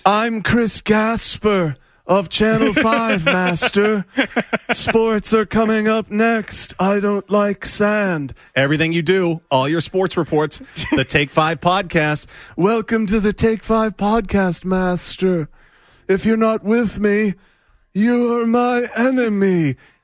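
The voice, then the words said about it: Hayden Christensen's Anakin Skywalker impression. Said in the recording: “talking like Hayden Christensen playing Anakin Skywalker in the horrible Star Wars prequels ... give me the voice.”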